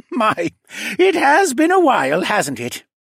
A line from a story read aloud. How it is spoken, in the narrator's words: The older man chuckled